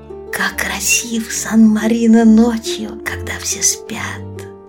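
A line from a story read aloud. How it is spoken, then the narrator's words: Whisper. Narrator (Russian): прошептал Чирилло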